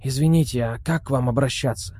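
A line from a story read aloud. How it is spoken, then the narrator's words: Whispered question. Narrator (Russian): Тоже шепотом спросил Леонид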